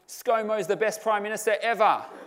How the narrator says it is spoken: your three-year-old yells out

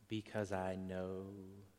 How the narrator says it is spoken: she continued in her soft little angelic voice

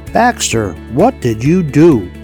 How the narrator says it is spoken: he shouted

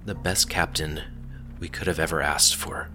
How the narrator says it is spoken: she whispered to Selois, her voice wavering

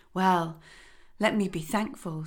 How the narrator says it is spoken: sighed he

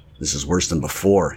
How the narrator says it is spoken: he muttered

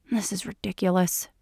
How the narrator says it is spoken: mutters under her breath

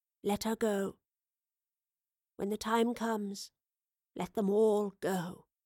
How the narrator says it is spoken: she said in a hushed voice

